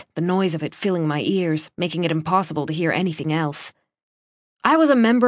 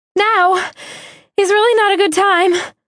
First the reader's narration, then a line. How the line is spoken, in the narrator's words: I said, my voice high and breathy